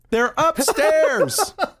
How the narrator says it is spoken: someone in the audience yelled out

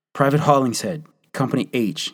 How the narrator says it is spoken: he answered

